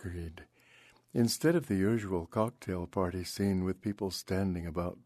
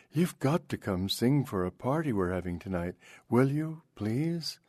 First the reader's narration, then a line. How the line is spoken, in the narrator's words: cried